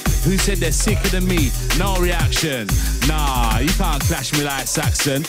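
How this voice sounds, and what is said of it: Cockney East End accent. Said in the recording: “East End, Cockney boy, they love my accent.”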